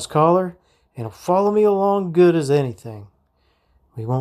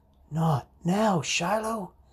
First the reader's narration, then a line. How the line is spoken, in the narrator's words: I whisper